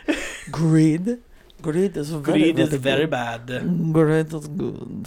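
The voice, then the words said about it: Bad put-on French accent. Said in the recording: “That was my worst French accent”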